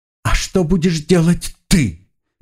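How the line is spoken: Nearly sobbing, through sobs. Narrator (Russian): Почти рыдая, задала она вопрос, прорываясь сквозь всхлипы

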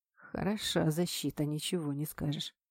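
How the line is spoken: Muttered. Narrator (Russian): пробормотал кореец

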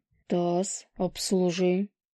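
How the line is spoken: Cold curt remark. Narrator (Russian): холодно бросил лис

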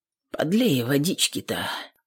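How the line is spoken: Quiet request. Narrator (Russian): попросил Ефим тихонько

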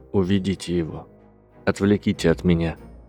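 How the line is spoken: Plain. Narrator (Russian): сказал голос

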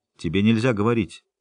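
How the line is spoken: Sharp. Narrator (Russian): резко сказала Трис

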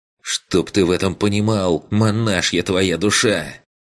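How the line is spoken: Angry, through teeth. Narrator (Russian): Зло процедил Бруно

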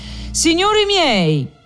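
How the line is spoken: Shouted, opening-speech tone. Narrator (Italian): gridò in tono d'esordio

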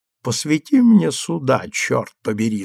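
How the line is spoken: Servant's hiss in ear. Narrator (Russian): зашипел лакей на ухо Эмилю

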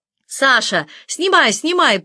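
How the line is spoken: Shouting. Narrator (Russian): прокричал Долгов своему личному оператору

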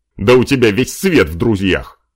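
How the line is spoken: Elf's wry grunt. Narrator (Russian): Хмыкнул эльф

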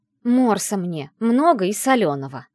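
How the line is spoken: Loud bark. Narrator (Russian): гаркнула

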